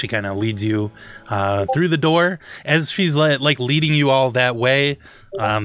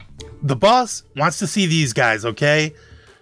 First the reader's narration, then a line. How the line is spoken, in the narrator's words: She yells back at them